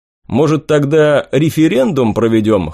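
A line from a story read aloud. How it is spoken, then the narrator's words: Snorting. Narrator (Russian): хмыкнул я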